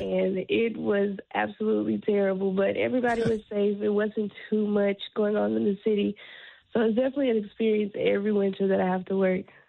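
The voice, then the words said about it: Raspy voice. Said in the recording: “my voice is a little raspy. I'm just getting over a cold”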